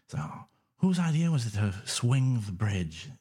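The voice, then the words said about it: Poor put-on Scouse accent. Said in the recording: “Is that your impression of my accent? ... Yeah, it's terrible. Wow. It's Scouse.”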